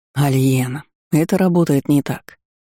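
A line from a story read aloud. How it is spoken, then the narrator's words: Gentle interruption. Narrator (Russian): мягко перебил меня Гаррет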